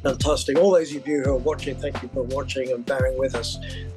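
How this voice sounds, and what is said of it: English accent. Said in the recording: “forgive my English accent ... the English accent is a bonus”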